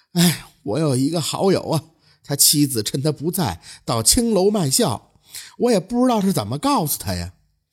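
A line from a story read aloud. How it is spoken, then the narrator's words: Sighing. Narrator (Chinese): 那邻居小哥的叹气说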